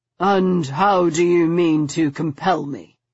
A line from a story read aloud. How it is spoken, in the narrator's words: he asked, his voice curiously detached